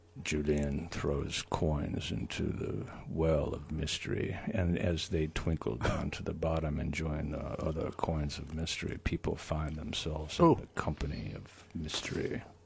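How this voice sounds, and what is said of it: Imitated very deep low voice. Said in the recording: “Let me try it in a Barry White voice ... It's going to have to be much lower than that ... Much lower ... Let me drop it down.”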